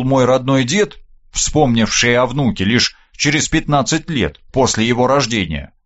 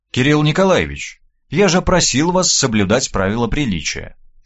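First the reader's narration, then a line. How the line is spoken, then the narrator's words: Slightly cooler tone. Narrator (Russian): чуть похолодевшим тоном проговорил Михаил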